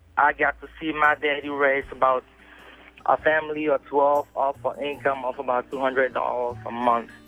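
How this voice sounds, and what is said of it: Cameroonian West African accent. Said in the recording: “if you can tell from my accent, I'm not originally from around here. I grew up in Cameroon, West Africa.”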